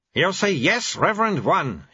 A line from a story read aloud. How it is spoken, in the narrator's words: he growled